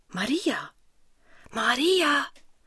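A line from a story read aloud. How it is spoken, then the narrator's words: Man's soft urgent call. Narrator (German): Die Stimme eines Mannes ruft sie leise und eindringlich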